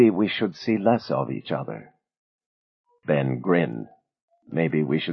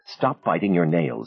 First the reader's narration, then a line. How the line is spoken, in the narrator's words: Aida snapped at her son